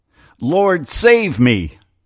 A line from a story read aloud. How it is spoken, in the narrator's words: beginning to sink, he cried, saying